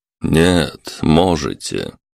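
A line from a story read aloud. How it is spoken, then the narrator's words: Calm male answer. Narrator (Russian): спокойно ответил мужчина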